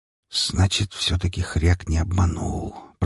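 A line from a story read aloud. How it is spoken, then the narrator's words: Whisper. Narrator (Russian): прошептал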